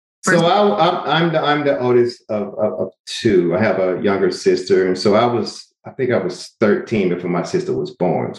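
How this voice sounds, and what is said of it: Southern US Georgia accent. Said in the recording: “a small town called Albany, Georgia... That's why you have such a wonderful accent.”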